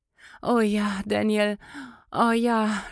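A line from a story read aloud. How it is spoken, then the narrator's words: Moaning. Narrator (German): stöhnte Clarissa wieder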